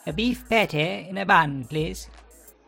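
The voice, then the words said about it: Old-fashioned posh British RP accent. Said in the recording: “APA received pronunciation, otherwise known as old-fashioned posh. APA RP is a British English accent that is now only really spoken by aging aristocrats ... can sound a tad absurd”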